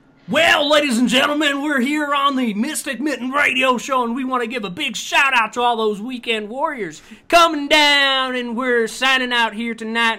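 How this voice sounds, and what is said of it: Radio announcer voice. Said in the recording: “They haven't done any radio voices ... do a radio voice”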